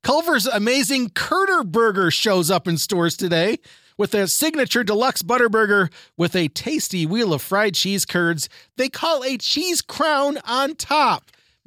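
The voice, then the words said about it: Hoarse, fading voice. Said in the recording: “my voice is going away”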